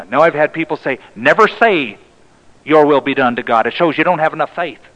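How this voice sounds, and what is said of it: Put-on accent. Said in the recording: “why are you speaking in an accent?”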